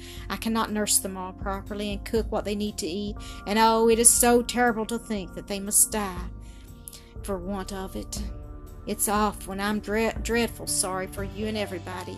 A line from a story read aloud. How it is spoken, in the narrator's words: sighed Celestine, wiping away the tears that were streaming over her cheeks